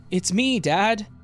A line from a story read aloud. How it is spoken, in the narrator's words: the guy called out from the floor